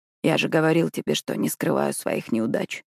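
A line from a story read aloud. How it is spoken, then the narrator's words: Soft. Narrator (Russian): мягко произносит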